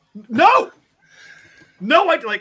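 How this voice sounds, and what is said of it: Imitates another person shouting. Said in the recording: “a very good impression of Nish shouting no.”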